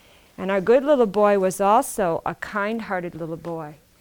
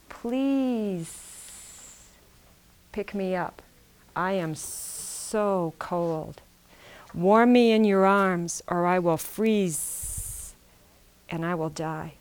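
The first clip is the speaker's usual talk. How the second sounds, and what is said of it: Low-voiced snake character voice. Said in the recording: “in a low voice”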